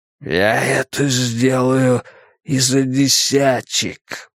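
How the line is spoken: Tramp's hoarse wheeze. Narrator (Russian): прохрипел бродяга

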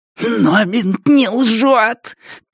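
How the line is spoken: Squeak. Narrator (Russian): пискнул

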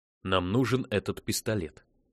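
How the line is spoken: Plain. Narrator (Russian): сказал Рассел Тагу

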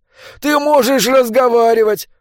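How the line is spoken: Exclamation. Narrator (Russian): воскликнул Уильям

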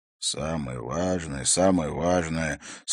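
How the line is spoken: Slightly annoyed grumble. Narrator (Russian): с легкой досадой пробурчал Харри

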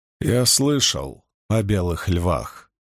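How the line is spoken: Cold. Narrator (Russian): холодно сказал Ранд

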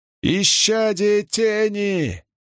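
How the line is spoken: Screaming. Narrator (Russian): завопил кто-то

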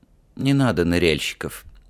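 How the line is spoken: Sudden, weary smiling tone. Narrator (Russian): неожиданно сказал Ральф и устало улыбнулся

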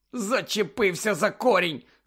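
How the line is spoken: Angry explanation. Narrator (Ukrainian): сердито пояснив

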